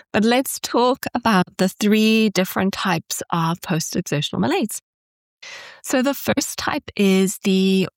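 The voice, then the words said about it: Nasal, congested voice. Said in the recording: “maybe I sound a little bit nasally today. I have had a cold all week ... my voice is a little bit off”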